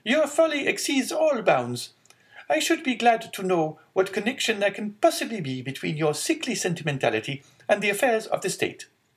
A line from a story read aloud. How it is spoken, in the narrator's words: exclaimed the angry Marquise